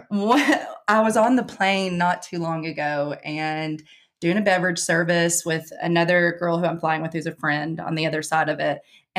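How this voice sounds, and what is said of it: Kentucky accent. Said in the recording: “where are you from? And I said, Kentucky ... Yes, she does, ma'am ... we can all hear it ... I have not lost my accent at all ... it gets thicker when I'm home for a long time or drinking”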